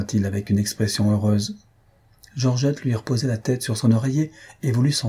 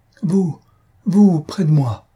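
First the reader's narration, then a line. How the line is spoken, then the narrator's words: Trembling emotional voice. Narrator (French): d'une voix tremblante d'émotion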